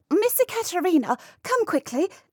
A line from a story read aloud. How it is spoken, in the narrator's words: cried Miss Bristol